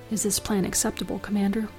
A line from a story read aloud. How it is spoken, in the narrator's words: Catan sighed